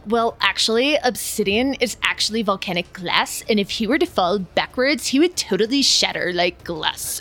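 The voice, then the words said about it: Nasally know-it-all character voice. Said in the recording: “well actually you in a nasally voice”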